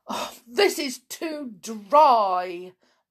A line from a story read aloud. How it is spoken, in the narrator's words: moaned